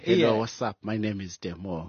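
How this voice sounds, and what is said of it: Attempted twang, Zulu accent showing. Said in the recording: “let's try and twang ... You can't get rid of the Zulu accent. Still there.”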